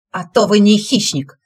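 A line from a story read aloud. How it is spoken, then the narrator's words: Rabbit snapping. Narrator (Russian): огрызнулся кролик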